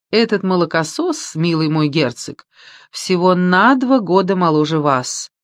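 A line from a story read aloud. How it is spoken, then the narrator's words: Laughing. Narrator (Russian): рассмеялась Мари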